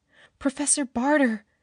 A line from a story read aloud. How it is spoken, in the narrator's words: begged